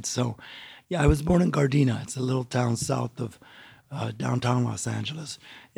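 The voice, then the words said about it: Strained, worn voice. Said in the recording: “let me apologize for my voice. I was in a conference and I talked too much.”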